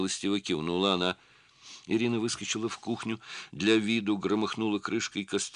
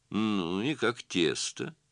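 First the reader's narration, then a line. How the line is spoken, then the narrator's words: Mocking question. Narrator (Russian): насмешливо спросила Диана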